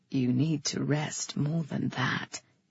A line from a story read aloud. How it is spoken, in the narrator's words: he whispered